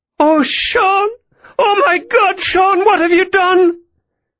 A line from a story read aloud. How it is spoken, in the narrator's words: Mary cried